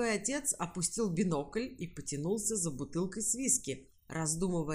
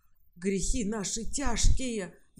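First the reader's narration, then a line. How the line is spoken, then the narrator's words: Priest's sigh. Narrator (Russian): вздохнул святой отец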